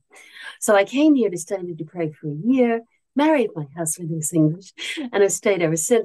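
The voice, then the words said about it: Mid-Atlantic American-British accent. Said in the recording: “my accent's in the middle of the ocean”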